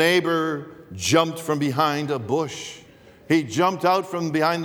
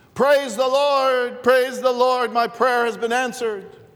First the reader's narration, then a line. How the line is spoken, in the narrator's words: a lady shouted